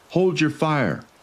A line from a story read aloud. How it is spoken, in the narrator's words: shouted